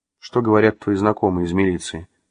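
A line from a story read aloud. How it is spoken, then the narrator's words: Plain. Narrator (Russian): спросила Маша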